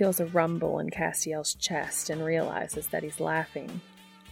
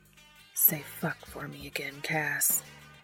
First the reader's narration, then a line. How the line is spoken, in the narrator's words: He lets go of Cass's earlobe long enough to whisper